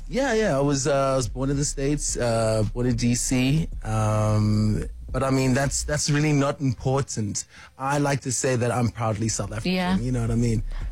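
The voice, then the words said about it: American accent with a twang. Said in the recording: “speak with, like, an American accent? ... That's twang.”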